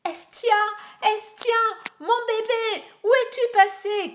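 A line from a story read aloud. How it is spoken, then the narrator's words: Shouting. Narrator (French): criait-elle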